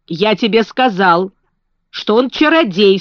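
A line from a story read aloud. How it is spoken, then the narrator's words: Stern. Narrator (Russian): строго сказал Колин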